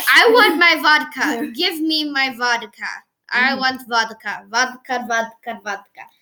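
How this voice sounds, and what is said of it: Put-on Russian accent. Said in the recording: “am I giving him a Russian accent?”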